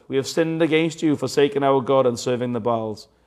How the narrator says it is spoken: cried out

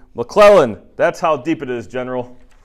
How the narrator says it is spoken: Custer shouted triumphantly

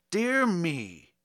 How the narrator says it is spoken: irritably he exclaimed

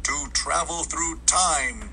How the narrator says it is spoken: exclaimed the very young man

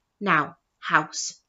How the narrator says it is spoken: says sternly

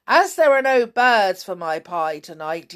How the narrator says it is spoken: he shouted

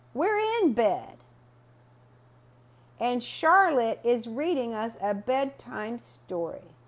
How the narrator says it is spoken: I yelled out to Mom and I said

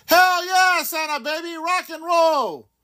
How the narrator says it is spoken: He was saving so much time, he yelled

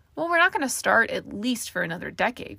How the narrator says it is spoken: Caramel laughed

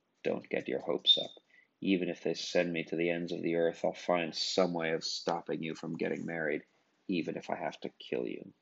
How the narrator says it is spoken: she whispered in her ear

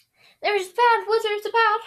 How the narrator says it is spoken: squeaked distractedly labored to keep running

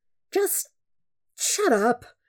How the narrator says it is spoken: Sokka says wearily

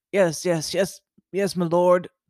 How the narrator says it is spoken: the one-eyed man stammered

